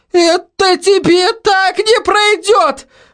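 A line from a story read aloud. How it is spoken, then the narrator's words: Shrill hiss. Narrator (Russian): Визгливо прошипела она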